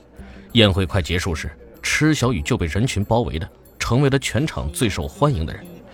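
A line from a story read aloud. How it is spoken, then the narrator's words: Admiring exclamation. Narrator (Chinese): 千里集团的总裁感叹道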